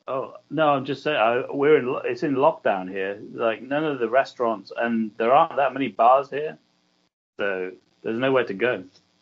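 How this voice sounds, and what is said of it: British accent. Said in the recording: “I can hear your British accent”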